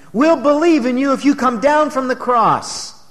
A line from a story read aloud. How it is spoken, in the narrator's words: they cried out to him